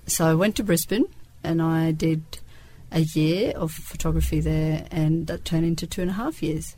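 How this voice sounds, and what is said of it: Australian English accent. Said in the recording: “that would account for the Australian accent. ... I was an exchange student in Australia for a year when I was 17, so that's where the accent comes from.”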